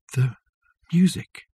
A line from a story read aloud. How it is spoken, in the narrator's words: whispered Richard